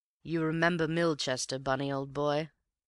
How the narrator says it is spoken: His tone was as bland

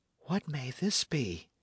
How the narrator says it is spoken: whispered Matcham

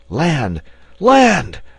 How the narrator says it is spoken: a loud voice shouted

